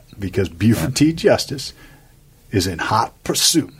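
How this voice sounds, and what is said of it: Imitates a movie character's accent. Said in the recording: “that was a good accent”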